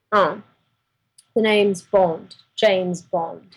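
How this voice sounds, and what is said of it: James Bond impression. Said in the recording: “Do your James Bond impression ... No, do the impression. Don't just repeat what I said in your own accent.”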